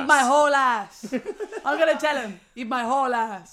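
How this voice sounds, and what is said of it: Imitated accent, starting off Italian-sounding. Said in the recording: “imitated my accent ... accurate ... Kind of good, yeah ... it started off Italian, I think”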